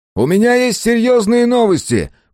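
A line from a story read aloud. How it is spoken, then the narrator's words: Shouting through a mask. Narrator (Russian): прокричал сквозь маску Мэлори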